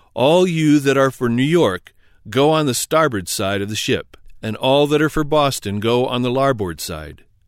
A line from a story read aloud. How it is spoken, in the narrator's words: with a stentorian voice cried out